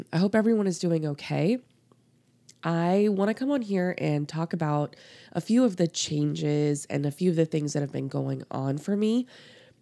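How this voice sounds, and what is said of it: Voice affected by a cold. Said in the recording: “please excuse my voice. I am getting over a cold”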